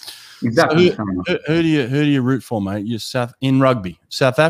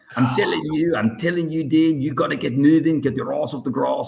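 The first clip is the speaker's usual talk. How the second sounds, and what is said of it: Imitated South African accent. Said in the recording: “Your mom and dad have the South African accent? ... Yeah, they've still got it.”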